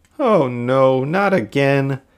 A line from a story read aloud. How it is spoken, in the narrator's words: Jessie, James, and Meowth groaned